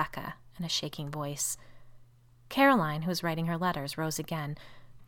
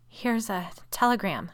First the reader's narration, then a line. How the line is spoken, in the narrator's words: she gasped